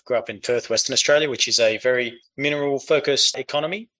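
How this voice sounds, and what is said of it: Australian accent. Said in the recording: “from the accent, you can tell I grew up in Australia”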